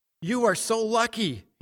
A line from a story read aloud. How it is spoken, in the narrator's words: neighbors cried